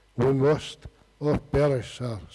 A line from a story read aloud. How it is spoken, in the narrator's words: said the pilot solemnly